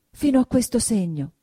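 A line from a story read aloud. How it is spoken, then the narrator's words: Flustered, trembling exclamation. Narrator (Italian): esclamò, arrossendo e tremando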